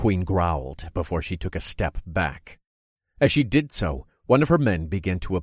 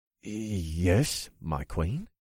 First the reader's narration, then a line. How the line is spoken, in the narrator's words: he said in a hesitant tone